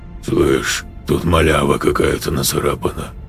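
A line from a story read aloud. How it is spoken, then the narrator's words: Hoarse. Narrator (Russian): прохрипел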